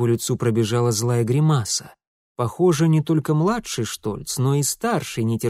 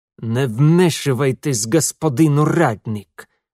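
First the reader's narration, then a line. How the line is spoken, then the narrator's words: Hissed through clenched teeth. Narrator (Russian): сквозь зуби процедил Свенельд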